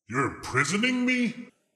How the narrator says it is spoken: He spat

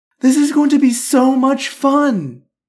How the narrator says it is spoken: Marion sighed

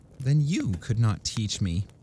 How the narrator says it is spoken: said the princess, sighing to herself

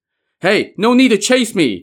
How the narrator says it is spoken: Jiang Ziya shouted to them

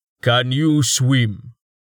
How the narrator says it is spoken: Torhart asked, his voice echoed within his helmet

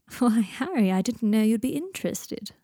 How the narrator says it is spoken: purred Malfoy

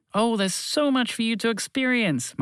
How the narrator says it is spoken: Montgomery the Moose exclaimed

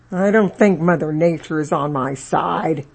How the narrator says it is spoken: Sarge, snarling and growling, thinking to himself

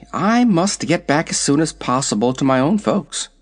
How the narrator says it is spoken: said the girl anxiously

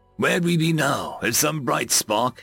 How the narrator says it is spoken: he chuckled lightly

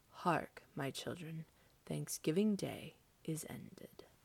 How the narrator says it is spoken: said softly

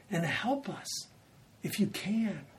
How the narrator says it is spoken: the dad cries out

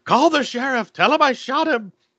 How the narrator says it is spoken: he yells

